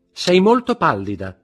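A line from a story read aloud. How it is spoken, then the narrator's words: Shouted. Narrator (Italian): gridò Eugénie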